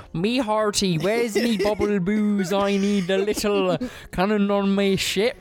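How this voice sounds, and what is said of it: Pirate character voice. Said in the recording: “do your best pirate voice. ... do a pirate impression.”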